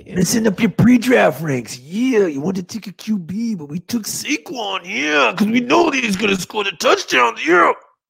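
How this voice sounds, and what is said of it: Imitates another person's voice. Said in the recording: “macho man, Randy Savage ... I do all sorts of impressions”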